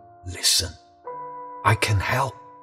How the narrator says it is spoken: It was as if they were whispering

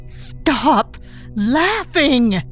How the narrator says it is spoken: insists angrily

